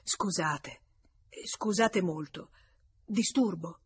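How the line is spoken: Murmured. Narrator (Italian): Duroy, fermatosi sulla soglia, mormorò

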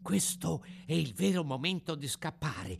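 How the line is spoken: Whisper. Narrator (Italian): bisbigliò

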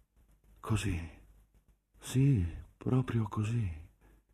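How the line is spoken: Breathed with deep sigh. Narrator (Italian): fiatò in un profondo sospiro

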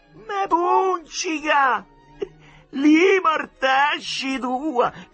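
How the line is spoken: Shouting with laughter. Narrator (Italian): gridò ridendo Marcello

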